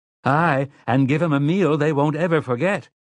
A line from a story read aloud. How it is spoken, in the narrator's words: Margaret Eisenhart called out bravely